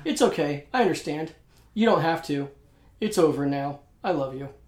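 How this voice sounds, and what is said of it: Flat, passionless movie line reading. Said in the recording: “it's delivered with that much passion. ... that was a good impression.”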